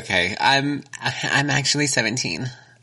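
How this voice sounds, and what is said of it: Changed voice, basic white girl character. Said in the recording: “did your voice change like that? ... Because I'm a basic white girl trying to buy booze.”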